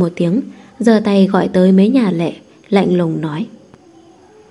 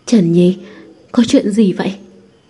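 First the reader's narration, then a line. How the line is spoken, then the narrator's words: Trembling. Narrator (Vietnamese): Thẩm Hoàng run rẩy nói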